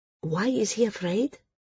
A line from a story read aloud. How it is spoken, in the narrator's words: Srella asked quietly